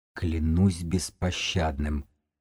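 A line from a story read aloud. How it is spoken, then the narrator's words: Barely audible breath. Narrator (Russian): едва слышно выдохнула Белка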